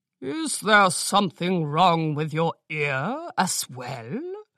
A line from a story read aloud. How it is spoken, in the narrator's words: Orange Mane sneered